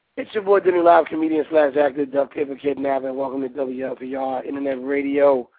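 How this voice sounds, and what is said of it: Strained, hoarse voice. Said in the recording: “you know why my voice doesn't sound sexy? Because I was yelling at the fight and yelling at the football game.”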